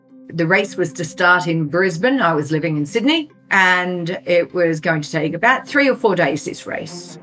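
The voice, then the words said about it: Speaks with a noticeable accent. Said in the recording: “With ... accent, it sometimes sounds like Damon.”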